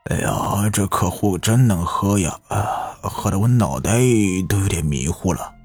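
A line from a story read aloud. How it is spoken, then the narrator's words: Drunken mumbling. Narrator (Chinese): 赵强 身子摇摇摆摆的，嘴里一个劲的嘟囔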